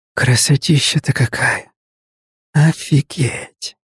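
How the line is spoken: Awed whisper against glass. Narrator (Russian): прошептал, прилипнув носом к стеклу

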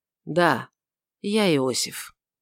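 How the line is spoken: Old man's soft reply. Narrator (Russian): почтенный старец мягко ответил

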